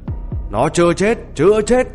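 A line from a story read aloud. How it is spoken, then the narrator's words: Loud shout. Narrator (Vietnamese): Anh ta hét lớn với hắn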